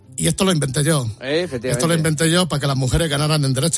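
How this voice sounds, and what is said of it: Imitates another person's voice. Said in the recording (Spanish): “tengo que hacer la voz de Rubiales”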